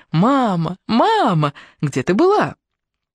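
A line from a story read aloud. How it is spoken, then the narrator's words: Children laughing and shouting. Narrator (Russian): они смеялись и кричали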